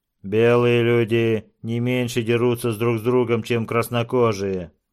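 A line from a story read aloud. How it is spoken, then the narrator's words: Gloomy explanation. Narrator (Russian): мрачно объяснил Мототаупа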